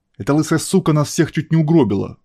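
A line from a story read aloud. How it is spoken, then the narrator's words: Angry blurting. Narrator (Russian): зло выпалил Пирс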